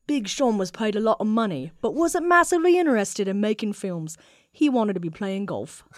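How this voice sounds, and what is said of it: Put-on British accent imitating Jason Fleming. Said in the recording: “you're going to do another accent. You're going to be our Jason Fleming ... I only have one English. British accent ... That's actually kind of close to him.”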